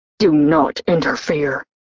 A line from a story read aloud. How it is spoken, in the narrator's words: He hissed back